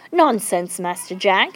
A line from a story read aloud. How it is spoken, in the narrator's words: said Praiseworthy